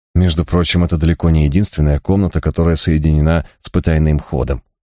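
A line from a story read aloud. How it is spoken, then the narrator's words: Calm remark. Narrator (Russian): спокойно заметил брат Гай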